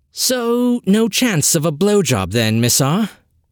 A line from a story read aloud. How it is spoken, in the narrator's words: chuckling